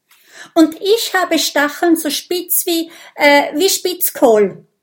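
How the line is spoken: Calling out. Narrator (German): ruft Mathilda

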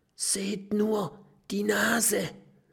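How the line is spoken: Whisper. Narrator (German): flüstert Mathilda

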